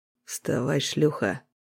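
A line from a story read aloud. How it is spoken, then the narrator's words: Hoarse rasping voice. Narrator (Russian): Голос хрипел, ржавый, как старый клинок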